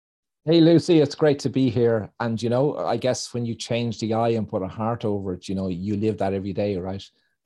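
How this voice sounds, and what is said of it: Irish accent. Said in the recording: “you're going to love hearing his accent... He's lives near Dublin, Ireland”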